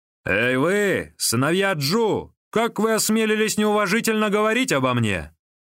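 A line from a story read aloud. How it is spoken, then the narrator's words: Shout. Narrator (Russian): Лиин закричал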